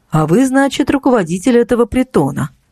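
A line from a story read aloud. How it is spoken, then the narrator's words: Dry question. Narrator (Russian): спросил незнакомец сухо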